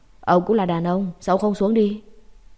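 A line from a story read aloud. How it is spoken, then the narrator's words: Gruff deep voice after pause. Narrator (Vietnamese): Im lặng hồi lâu mới thấy Tang Quân Dũng ồm ồm nói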